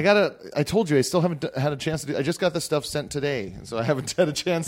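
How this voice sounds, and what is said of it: Hoarse, worn-out voice. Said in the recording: “My voice... my voice has been gone from talking over music all night”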